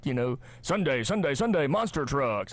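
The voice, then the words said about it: Announcer-style radio voice. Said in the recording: “try my radio voice”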